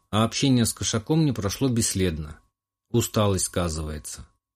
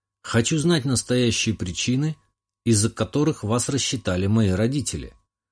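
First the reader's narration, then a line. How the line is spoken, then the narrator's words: Calm answer. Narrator (Russian): спокойно ответил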